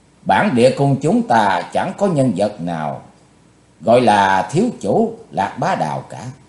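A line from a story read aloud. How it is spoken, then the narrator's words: Cold, controlled voice. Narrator (Vietnamese): Sắc mặt của Đào phu nhân biến hẳn, nhưng giọng vẫn lạnh lùng nói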